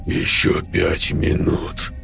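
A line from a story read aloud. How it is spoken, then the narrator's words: Hoarse. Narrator (Russian): хрипло проговорил он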